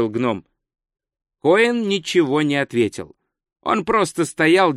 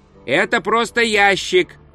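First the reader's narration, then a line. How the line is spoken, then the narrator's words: Shout. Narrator (Russian): крикнул гном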